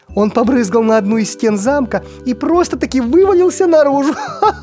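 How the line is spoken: Sorceress laughing. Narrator (Russian): Засмеялась волшебница

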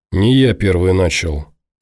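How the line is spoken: Weary. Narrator (Russian): устало пожал плечами Ворожцов

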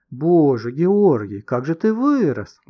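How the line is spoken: Exclaiming. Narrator (Russian): воскликнула

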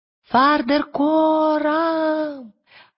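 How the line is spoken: Shouting. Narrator (Russian): крикнула Лира

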